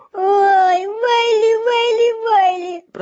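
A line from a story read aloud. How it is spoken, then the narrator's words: Moaning. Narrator (Russian): простонал шлемовращатель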